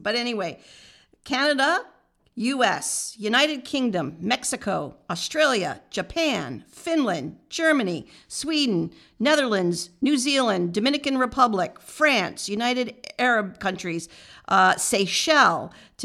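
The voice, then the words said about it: Nasal American twang. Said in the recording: “My nasal twang's going to come through, my Americanism.”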